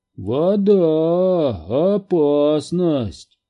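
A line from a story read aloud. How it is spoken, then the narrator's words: Drawn-out voice. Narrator (Russian): протянул Хендер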